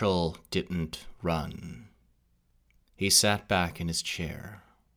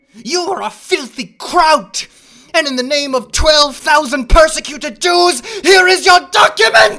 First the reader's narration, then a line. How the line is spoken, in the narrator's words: He suddenly jumped out of his chair, and shouted